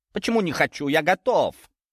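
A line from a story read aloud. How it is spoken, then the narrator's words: Ardent exclamation. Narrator (Russian): воскликнул он с жаром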